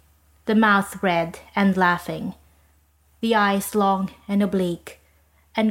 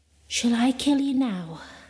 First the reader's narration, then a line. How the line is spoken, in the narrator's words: She whispered